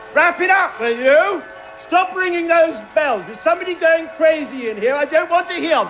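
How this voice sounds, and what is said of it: Angry shouting. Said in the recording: “Stop shouting.”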